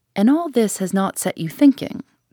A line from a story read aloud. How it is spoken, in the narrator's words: said he